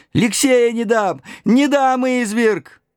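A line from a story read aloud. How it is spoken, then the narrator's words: Screaming. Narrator (Russian): Бабушка закричав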